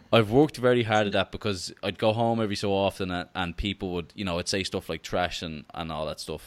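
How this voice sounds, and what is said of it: Irish accent, no American trace. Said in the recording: “there's no hint of any American accent either ... talk to Irish people as much as I could, just to keep the accent”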